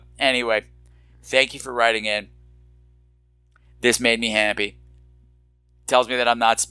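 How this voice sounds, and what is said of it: Usual voice. Nothing is said of it.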